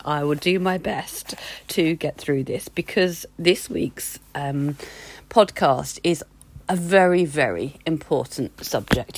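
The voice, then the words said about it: Croaky voice recovering from voice loss. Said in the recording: “I lost my voice. ... I'm a little bit croaky still”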